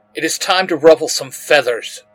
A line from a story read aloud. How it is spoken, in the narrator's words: Stignet hisses